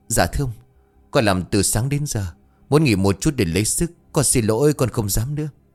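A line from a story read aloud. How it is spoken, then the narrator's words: Trembling, pleading man. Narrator (Vietnamese): Người đàn ông Tá Điền tên là Nguyễn run rẩy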